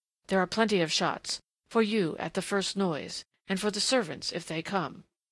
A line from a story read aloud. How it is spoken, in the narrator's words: she went on in that fierce undertone, and then, passionately